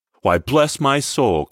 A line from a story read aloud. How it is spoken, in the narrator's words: cried Fred